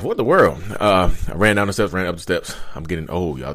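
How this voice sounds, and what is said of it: Out of breath speaking. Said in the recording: “I'm out of breath.”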